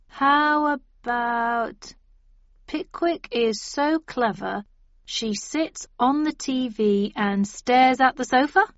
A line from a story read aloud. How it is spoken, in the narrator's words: said Ib slowly